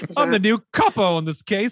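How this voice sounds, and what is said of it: Mock British Essex accent. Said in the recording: “British accent ... She's like from Essex specifically ... I'm Dick Van Dyke and Mary Poppins”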